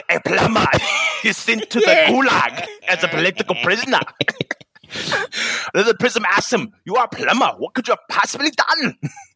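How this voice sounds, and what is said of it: Russian accent. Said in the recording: “I'll get this in the Russian accent.”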